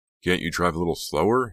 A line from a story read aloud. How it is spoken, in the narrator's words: He asked nervously